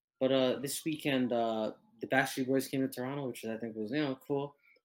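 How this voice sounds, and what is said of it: Canadian English accent. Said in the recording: “if you can't tell from the accent, we are Canadian”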